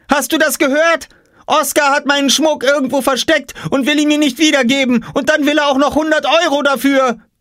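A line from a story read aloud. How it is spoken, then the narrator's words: Shouting. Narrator (German): schrie Jule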